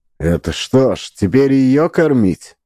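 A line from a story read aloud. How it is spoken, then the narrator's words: Grumbling. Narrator (Russian): пробурчал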